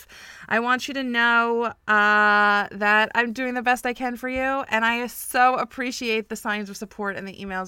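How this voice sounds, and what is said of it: Voice sounds a little off. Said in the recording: “I've been battling jet lag and a cold for over a week ... my voice has been a little bit off ... if I sound a little bit strange”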